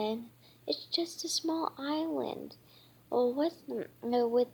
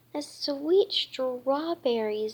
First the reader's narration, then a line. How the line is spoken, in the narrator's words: Berry cried